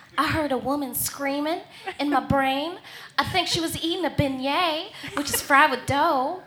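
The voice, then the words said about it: Sookie voice, vague Southern accent. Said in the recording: “Sookie is Anna Paquin and has a vague Southern accent.”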